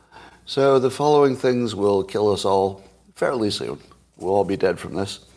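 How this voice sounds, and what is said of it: Strained voice, not fully recovered. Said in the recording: “Excuse my voice. It's not coming totally back online yet.”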